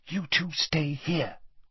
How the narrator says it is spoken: whispered Hermione

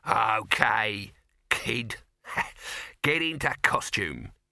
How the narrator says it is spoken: he chuckled

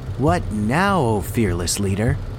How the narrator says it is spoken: He asked sarcastically

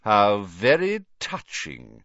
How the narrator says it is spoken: sneered Snape

